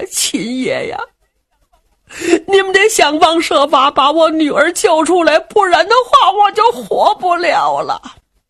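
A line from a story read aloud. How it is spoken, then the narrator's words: Sobbing heavily. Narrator (Chinese): 田掌柜哭得跟泪人似的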